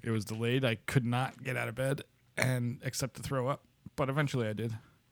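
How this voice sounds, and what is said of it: Noticeably lower, rough voice. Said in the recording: “my voice is much lower today, because I spent a little bit of time throwing up today”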